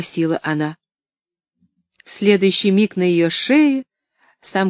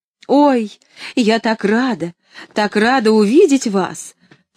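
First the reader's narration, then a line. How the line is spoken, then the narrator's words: Shouting right into ear. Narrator (Russian): крикнула Поллианна прямо в ухо Нэнси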